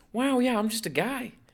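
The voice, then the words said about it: Imitates another person's voice. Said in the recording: “Wow is my Mark Wahlberg word, too.”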